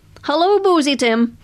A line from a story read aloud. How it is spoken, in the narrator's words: called out